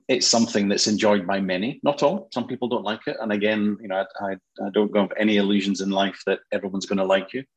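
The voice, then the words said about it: Scottish accent. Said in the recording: “you hopefully hear the Scottish accent”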